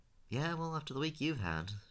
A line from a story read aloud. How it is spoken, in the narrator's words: Sean sighed